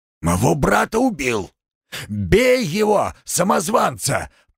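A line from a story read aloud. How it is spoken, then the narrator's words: Shout. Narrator (Russian): прокричал он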